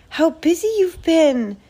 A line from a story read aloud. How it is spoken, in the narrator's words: the twins exclaimed